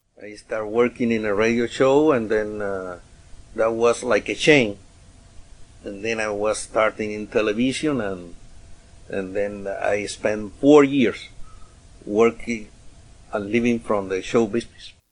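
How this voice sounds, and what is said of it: Cuban Spanish accent in English. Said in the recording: “Guess that accent... say where on the planet the speaker grew up... Cuba”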